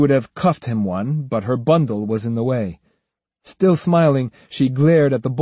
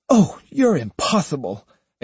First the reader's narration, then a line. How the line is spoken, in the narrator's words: exclaimed Otsu, laughing herself